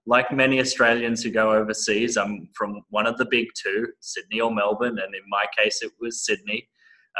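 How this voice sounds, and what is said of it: Australian accent. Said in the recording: “that's an Australian accent ... this is an Australian accent. I luckily have not lost it.”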